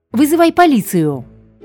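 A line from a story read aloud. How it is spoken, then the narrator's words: Louder shouting. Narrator (Russian): крикнула Луиза сильнее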